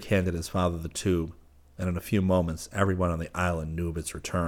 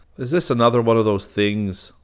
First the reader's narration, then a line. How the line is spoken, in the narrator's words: the detective cut in dryly